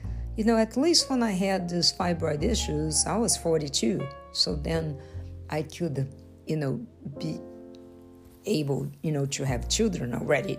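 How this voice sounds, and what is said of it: Speaks with a noticeable accent. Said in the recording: “excuse my accent”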